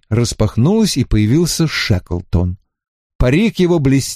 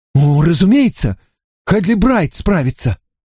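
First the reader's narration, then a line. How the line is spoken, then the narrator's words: Exclaiming. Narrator (Russian): воскликнул Генри Пурфуа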